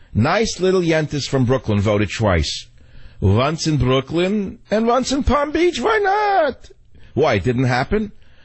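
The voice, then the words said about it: Put-on Brooklyn Jewish accent. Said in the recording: “Pardon the accent.”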